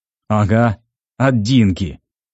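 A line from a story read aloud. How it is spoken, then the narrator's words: Sly snort. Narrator (Russian): хитро хмыкнул Жорик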